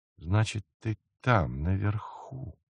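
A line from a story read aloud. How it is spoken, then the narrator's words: Whispered. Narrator (Russian): Шепотом обратился он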